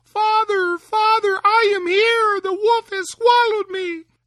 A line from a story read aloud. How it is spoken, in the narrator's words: Tom cried out